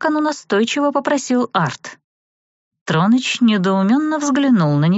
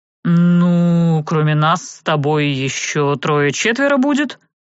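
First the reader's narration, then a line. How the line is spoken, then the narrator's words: Drawled. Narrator (Russian): протянул тот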